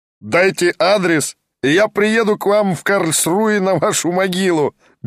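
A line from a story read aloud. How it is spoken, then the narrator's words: Roaring laughter. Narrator (Russian): безмерно расхохотался немец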